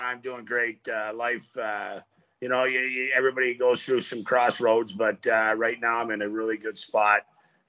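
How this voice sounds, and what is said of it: Striking rock-star-like voice. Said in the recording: “You sound like an absolute rock star. Ladies and gentlemen, are you hearing this voice? ... with that voice ... I've been called Nick Nolte. I've been called the guy from The Water Boy.”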